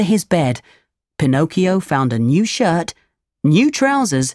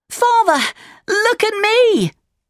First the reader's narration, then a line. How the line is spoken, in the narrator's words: shouted